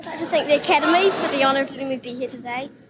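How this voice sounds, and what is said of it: Broad New Zealand accent, rising intonation. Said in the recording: “her broad Kiwi accent ... that little Kiwi rising register”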